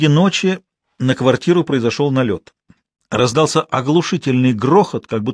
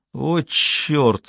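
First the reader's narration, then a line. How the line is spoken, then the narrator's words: Sleepy mumble. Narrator (Russian): сонно пробормотал Дмитрий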